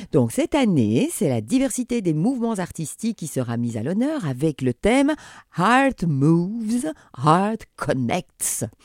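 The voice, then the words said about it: French-accented English pronunciation. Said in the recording (French): “Je sais, j'ai un, bon accent.”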